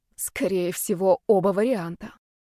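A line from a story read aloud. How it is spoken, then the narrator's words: Angry words through teeth. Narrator (Russian): процедила я, разозлившись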